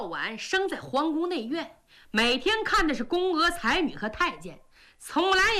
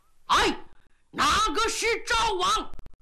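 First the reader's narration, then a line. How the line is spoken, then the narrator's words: Loud shout. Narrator (Chinese): 这个家伙长得太凶了…高喊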